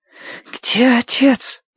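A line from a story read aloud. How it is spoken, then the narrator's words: Hoarse, demanding girl. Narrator (Russian): прохрипела девочка требовательно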